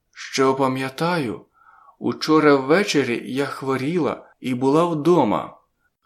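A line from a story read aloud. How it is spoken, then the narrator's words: Careful hoarse voice. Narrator (Ukrainian): говорила вона обережно, хрипким голосом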